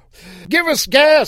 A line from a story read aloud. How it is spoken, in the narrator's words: someone inside yelled